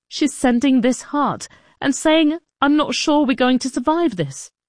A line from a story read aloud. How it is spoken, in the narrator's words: Ido sobbed